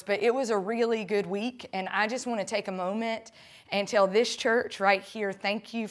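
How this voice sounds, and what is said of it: Slightly hoarse, tired voice. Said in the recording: “So I come here a little tired. My voice, you can probably hear, is a little hoarse”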